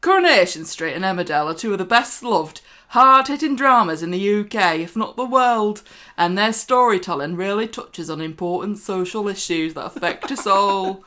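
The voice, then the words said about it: Put-on northern English Chorley accent. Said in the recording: “In your best Chorley accent.”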